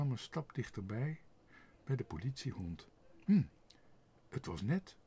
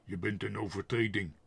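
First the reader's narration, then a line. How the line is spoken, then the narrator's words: Stern. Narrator (Dutch): zei streng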